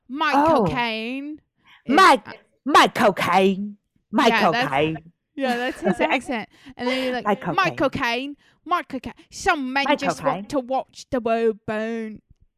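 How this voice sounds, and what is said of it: Bad imitation of a British actor. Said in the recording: “my best Michael Caine impression ... it's really, really bad”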